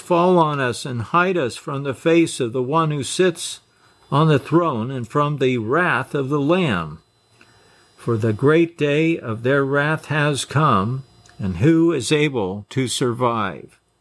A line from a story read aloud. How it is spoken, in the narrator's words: they cried to the mountains and rocks